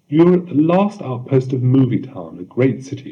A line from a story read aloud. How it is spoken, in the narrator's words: she said